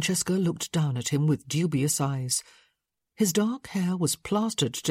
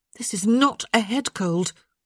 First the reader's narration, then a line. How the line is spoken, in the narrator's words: she said sharply